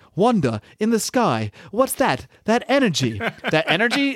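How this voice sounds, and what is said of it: Paul Bettany impression as Vision. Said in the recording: “I'm gonna say it like Paul Bettany ... That was a terrible Paul Bettany ... that impression”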